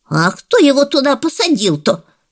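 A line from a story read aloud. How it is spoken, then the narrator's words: Grandma, bewildered exclamation. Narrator (Russian): Недоуменно воскликнула бабуля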